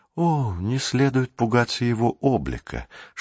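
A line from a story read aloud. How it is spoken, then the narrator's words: Whisper. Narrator (Russian): шепнул египтянин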